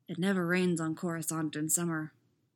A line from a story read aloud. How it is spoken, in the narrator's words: murmurs portentously